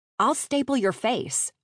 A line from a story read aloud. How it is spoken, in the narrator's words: snapped